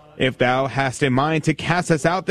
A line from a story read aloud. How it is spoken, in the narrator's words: they said